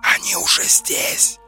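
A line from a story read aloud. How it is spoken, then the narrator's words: Hissing inner voice. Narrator (Russian): зашипел голос в голове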